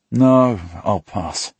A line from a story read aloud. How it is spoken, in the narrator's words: I groan